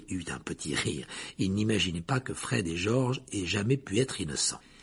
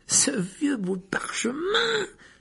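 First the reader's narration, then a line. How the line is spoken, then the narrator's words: Offended exclamation. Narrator (French): s'exclama Fred avec une grimace, comme si Harry venait de l'offenser gravement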